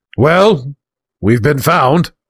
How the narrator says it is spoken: boomed to his companions

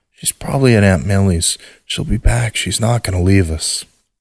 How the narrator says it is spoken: whisper

